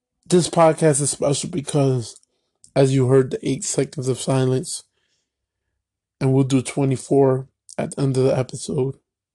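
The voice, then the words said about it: Hoarse, strained, tearful voice. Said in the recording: “If I sound a little different, yes, I'm teared up. But I woke up Wednesday morning with a sore throat and I lost my voice.”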